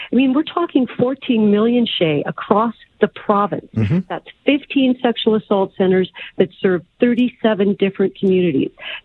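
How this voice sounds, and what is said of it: Frustrated, angry tone of voice. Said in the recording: “I am frustrated. I am angry. You can probably hear that in my voice.”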